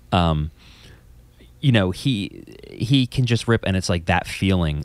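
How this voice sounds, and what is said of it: New Jersey accent. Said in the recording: “Trenton French ... I couldn't tell by your accent. ... It's New Jersey.”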